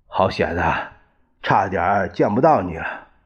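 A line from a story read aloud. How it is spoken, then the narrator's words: Whispering. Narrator (Chinese): 一见傅作义，低声说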